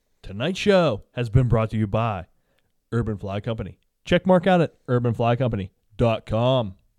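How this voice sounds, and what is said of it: Announcer-style radio voice. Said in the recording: “I love doing a radio voice for plugs ... I was so into the radio voice.”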